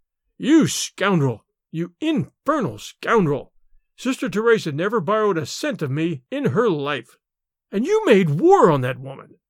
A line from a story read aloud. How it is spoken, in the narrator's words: His rage choked him